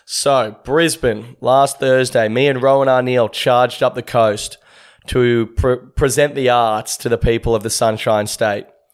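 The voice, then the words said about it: Rough, worn-out voice. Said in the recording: “You can probably hear my voice is a bit how you're going already”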